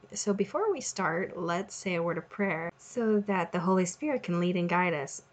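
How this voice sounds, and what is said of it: Strained, failing voice. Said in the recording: “apologize for my voice. It seems to be going out on me this week ... my voice sounds a little strange”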